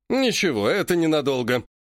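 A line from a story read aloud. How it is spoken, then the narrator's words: Short chuckle. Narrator (Russian): хохотнул Греков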